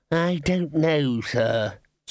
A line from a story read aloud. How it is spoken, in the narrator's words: said Ponder wearily